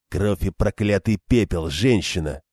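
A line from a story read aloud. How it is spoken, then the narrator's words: Growled. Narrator (Russian): прорычал Мэтт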